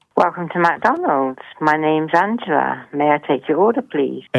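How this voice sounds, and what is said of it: Delightful British-sounding accent. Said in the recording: “Since when do they change the number one to tea and crumpets? ... I just love that accent ... you just have the most delightful accent I have ever heard”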